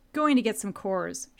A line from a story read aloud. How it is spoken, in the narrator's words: said